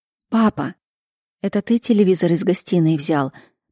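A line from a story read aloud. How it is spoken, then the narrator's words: Whisper. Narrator (Russian): прошептала Кира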